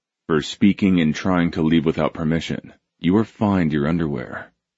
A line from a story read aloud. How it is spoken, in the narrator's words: Simon said, his voice level without a hint of humor